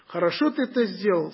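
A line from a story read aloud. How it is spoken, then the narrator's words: Plain. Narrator (Russian): сказал ему ангел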